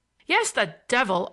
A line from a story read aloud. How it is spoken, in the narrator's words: I roared at him, astonished at finding him